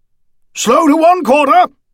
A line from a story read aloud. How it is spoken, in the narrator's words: he shouted